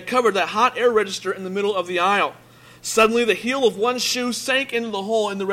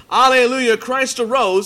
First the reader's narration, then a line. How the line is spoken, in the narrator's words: a voice was heard under the church shouting